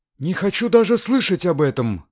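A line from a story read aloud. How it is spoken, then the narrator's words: Exclaiming. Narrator (Russian): снова воскликнула госпожа Тайлер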